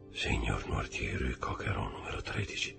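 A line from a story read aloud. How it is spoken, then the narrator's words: Frightened murmur. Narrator (Italian): mormorò impallidendo sempre di più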